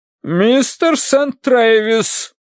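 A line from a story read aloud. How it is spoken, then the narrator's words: Booming metallic thunder. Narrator (Russian): прогремела миссис Меринг вагнеровским металлом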